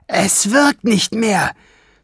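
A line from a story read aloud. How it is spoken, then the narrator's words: Shouting. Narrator (German): schrie Schwefelfell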